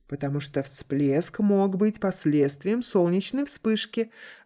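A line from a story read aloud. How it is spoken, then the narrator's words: Plain. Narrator (Russian): ответил Фэн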